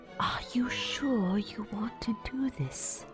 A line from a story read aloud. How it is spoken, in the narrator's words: She whispered